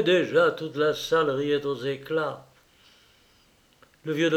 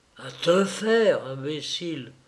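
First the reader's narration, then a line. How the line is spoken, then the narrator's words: Hushed breathy whisper. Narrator (French): souffla encore l'huissier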